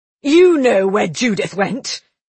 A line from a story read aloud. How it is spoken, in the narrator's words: he shouted at Isabel